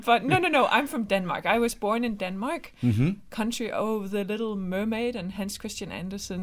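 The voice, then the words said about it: Non-American foreign accent. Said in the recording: “That's not an Oklahoma accent. ... You have an accent.”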